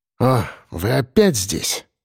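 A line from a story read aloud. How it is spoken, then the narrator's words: Tired exhale. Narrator (Russian): выдохнул он усталым голосом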